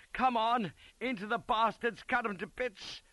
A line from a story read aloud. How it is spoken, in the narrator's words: I roared